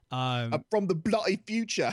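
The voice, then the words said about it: Bad put-on British accent. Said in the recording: “too terrible of a British accent.”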